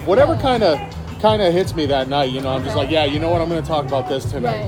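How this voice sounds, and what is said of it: Boston accent. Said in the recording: “being from Boston originally ... especially the accent stuff ... more of like a trashy New York accent”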